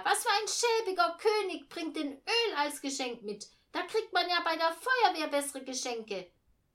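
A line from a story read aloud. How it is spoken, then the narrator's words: Shouted. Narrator (German): schrie Eugenia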